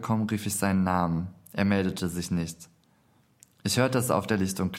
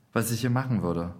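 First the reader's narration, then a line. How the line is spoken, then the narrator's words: Plain question. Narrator (German): fragte er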